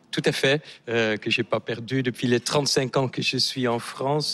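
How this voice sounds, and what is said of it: Slight Dutch accent in French. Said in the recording (French): “vous avez un léger accent ... Je suis néerlandais”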